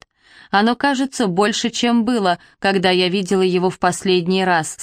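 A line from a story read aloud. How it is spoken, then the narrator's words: Plain. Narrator (Russian): сказала я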